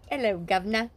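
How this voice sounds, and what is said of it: Put-on English accent. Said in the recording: “I was supposed to talk with an English accent.”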